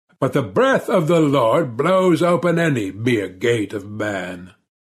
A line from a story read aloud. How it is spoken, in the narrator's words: the priest laughed